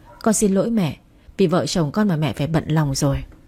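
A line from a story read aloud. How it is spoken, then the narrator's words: Sighing. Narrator (Vietnamese): Lưu Tuấn thở dài và nói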